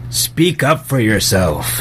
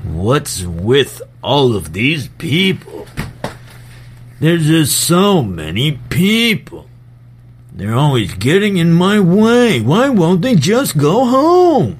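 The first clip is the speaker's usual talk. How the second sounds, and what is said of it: Comedian impression voice. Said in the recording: “I can do a Jerry Seinfeld impression. ... as Jerry Seinfeld.”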